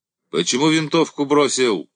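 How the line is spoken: Many voices yelling. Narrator (Russian): орали ему со всех сторон

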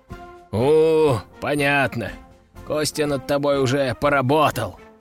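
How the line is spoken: Fighter chuckling. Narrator (Russian): хохотнул боец

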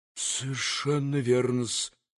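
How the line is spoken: Faltering mutter, nasty smile. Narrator (Russian): пробормотал уже пресекавшимся голосом Смердюков, гнусно улыбаясь

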